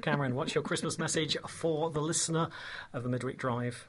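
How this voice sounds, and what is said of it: Put-on Peterborough English accent. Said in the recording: “just break into a little bit of colloquialism there, because I know you miss the English accent, particularly that of Peterborough”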